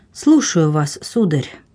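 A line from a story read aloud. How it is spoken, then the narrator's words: Soft, sad voice. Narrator (Russian): мягким печальным голосом сказала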